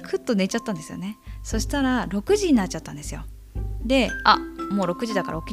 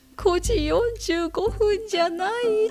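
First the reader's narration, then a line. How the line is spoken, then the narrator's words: Speaking, then breaking into tears. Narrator (Japanese): って言って泣き出して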